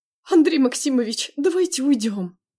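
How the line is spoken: Pleading. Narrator (Russian): взмолился адвокат

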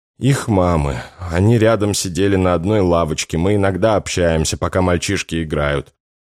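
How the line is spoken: Forced, choked with tears. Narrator (Russian): через силу выдавила Макарова, глотая слезы

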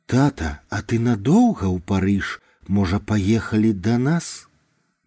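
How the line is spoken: Soft, gentle. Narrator (Belarusian): Мякка прамовіла Ханым

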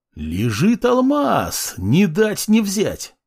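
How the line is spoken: Joyful loud bark. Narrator (Russian): радостно гаркнул я

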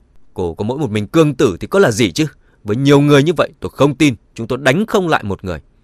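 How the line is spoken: Angry, trembling. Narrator (Vietnamese): Dương Dani giận dữ run rẩy

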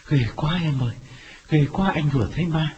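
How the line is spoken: Panting frightened reply. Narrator (Vietnamese): Quán bước vào thở hổn hển đáp

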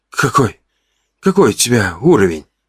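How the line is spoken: Hoarse, shocked exhale. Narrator (Russian): Выдохнул я хриплым от потрясения голосом

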